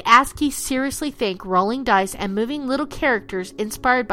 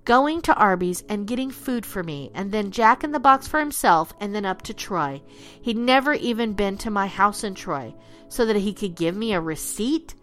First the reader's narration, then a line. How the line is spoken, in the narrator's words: Russ whispered to himself incredulously